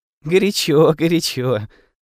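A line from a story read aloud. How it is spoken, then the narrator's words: Laughing. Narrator (Russian): рассмеялась Сесси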